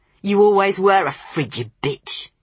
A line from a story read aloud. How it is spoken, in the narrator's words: he spat at her